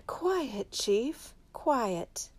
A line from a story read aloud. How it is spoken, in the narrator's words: Sleepily he said